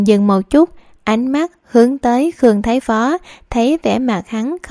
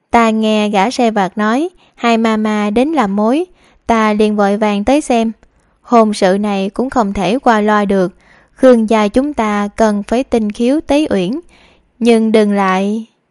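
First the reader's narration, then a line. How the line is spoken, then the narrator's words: Loud laughing voice. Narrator (Vietnamese): Nàng kia cười lớn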